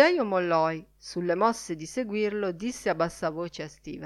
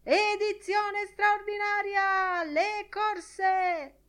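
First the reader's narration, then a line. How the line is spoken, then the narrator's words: Newsboy shouting. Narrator (Italian): Un primo strillone … urlando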